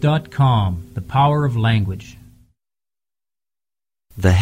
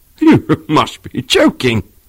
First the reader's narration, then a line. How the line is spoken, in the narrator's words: he exclaimed